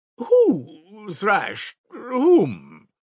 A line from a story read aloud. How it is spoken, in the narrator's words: cried Lebeziatnikov, flustered and blushing